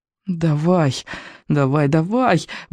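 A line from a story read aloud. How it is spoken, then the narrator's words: Muttering. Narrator (Russian): бормотал он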